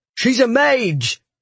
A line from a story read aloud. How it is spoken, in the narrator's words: one brother cried